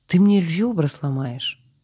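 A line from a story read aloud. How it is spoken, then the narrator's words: Muffled exclamation. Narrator (Russian): Воскликнула спасенная, но голос потонул в его плече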